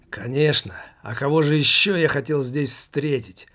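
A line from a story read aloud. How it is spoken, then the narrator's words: Tramp's hoarse rasp. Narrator (Russian): прохрипел бомж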